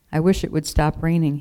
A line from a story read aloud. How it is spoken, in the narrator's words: he said